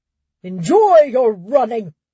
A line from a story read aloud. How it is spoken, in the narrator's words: Raymel's shout reached her through a lull in the crowd's voice